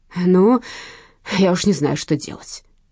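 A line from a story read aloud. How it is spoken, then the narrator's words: Grumbling. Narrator (Russian): ворчал дядя Вася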